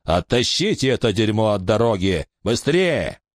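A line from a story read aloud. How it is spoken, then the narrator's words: Shouted. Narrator (Russian): Кто-то закричал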